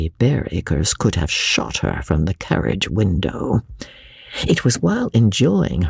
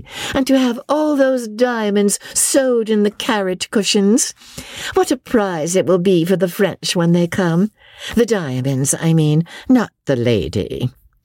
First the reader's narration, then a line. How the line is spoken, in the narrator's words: she said loudly